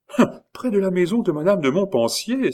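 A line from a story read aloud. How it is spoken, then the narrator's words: Exclaimed. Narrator (French): s'écria Louise de Vaudemont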